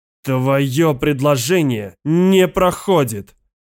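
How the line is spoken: Growl. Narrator (Russian): прорычал Годдард

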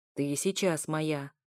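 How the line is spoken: Growling. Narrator (Russian): Снова с рычанием

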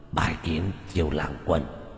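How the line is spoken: Hoarse rasping voice. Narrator (Vietnamese): Quỷ thi này dùng giọng khàn khàn nói

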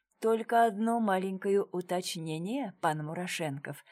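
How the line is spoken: Soft, sly, smiling. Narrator (Russian): мягко произнес, хитро улыбаясь

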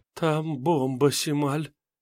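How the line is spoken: Hoarse rustling girl's whisper. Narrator (Russian): прошелестела девочка севшим голосом

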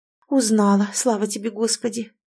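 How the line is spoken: Relieved exhale. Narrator (Russian): облегченно выдохнула Инна

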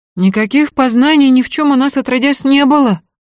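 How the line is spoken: Frightened female voice. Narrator (Russian): испуганно заверила Устинья

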